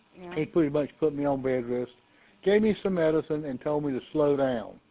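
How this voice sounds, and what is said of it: Raspy, sick-sounding voice. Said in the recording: “raspy in your voice”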